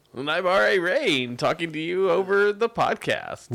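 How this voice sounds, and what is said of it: Announcer-style radio voice. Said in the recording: “With his radio voice. ... With my radio voice.”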